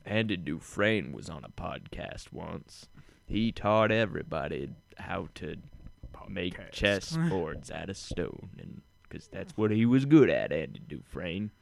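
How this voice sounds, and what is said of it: Imitates another person's voice. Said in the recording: “can you do a Morgan Freeman? ... You need to have more of a black accent. ... that's really good. ... It's too white. ... it just sounds like I've got, like, bronchitis or something.”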